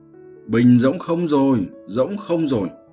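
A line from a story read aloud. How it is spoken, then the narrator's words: Panicked cry. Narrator (Vietnamese): Lão yêu không kìm được, thất thanh kêu lên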